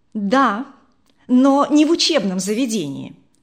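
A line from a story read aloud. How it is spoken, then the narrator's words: Angry reply. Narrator (Russian): сердито ответила она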